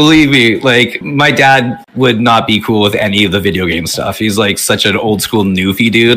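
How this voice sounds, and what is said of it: Usual voice. Nothing is said of it.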